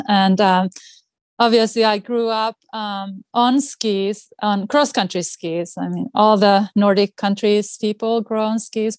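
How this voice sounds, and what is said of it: Finnish accent. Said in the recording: “I'm originally from Finland, as you can hear from my speech. It's not really a Boston accent.”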